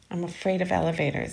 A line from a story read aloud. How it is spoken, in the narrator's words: said miserably